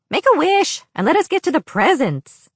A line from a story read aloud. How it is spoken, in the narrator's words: More shouted